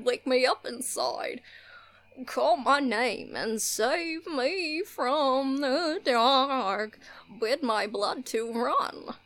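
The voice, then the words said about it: Goofy, bad singing impersonation. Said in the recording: “That's a horrible goofy impersonation.”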